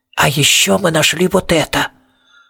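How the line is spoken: Hissed. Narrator (Russian): Престон, который прошипел

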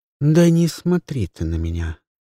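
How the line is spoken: Calm reply. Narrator (Russian): спокойно ответила Люси

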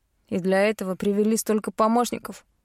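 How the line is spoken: Smirking snort. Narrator (Russian): хмыкнул преступник

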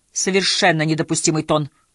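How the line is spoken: Scornful snort. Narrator (Russian): фыркнула Хиллари

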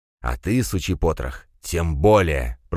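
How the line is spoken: Hissing in face. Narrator (Russian): прошипел Пегасов шаману в лицо

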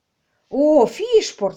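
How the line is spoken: Exclaiming, stage voice. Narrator (Russian): воскликнул Ларри и продекламировал сценическим голосом

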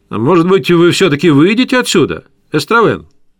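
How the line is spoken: Loud high nasal voice. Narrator (Russian): громко сказал он своим высоким гнусавым голосом

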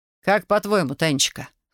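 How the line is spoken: Snort. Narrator (Russian): хмыкнул Дмитрий

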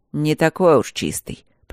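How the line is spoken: Grumbling, mouth full of blood. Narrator (Russian): проворчал байдек, ощупывая языком десну и глотая кровь

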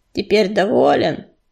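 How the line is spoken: Grumbled. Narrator (Russian): проворчал он

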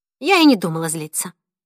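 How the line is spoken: Snapping back. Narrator (Russian): огрызнулась Сюзанна

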